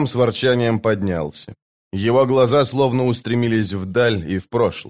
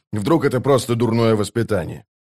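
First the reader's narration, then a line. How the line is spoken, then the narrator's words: Snorting. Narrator (Russian): Быстрый Бен фыркнул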